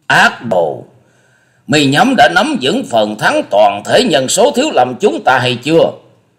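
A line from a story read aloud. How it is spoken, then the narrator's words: Furious shout, monk. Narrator (Vietnamese): Huệ Tâm thượng nhân đã hết phương dằn chế, y quát lên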